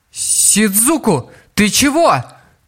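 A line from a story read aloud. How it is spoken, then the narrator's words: Shouting. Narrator (Russian): закричала Стелла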